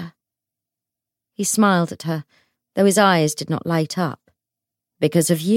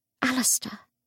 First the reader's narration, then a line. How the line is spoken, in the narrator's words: she whispered